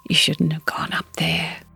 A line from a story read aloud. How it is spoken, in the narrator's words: he whispered